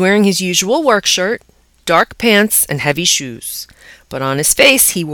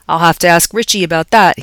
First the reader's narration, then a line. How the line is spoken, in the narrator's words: he said